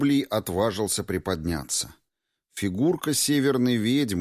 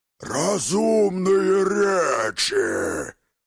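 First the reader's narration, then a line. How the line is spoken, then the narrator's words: Roaring giant. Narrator (Russian): проревел Исполин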